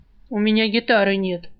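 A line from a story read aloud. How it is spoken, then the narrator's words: Grumbling. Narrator (Russian): проворчал тот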